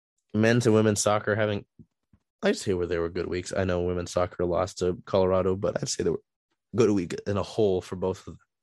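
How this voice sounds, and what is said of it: Rough, strained sore-throat voice. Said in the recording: “I apologize for my voice. I mean, I kind of have a sore throat.”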